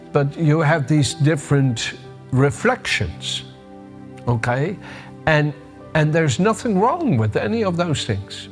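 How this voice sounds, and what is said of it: Dutch accent with slight American tinge. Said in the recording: “I have a Dutch accent, even though I've lived in Britain since 1986, I still have a Dutch accent. And I have a bit of an American accent”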